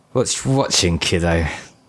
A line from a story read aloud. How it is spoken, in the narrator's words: slurred